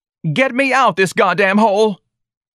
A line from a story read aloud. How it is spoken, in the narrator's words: Lana Lee screamed at the matron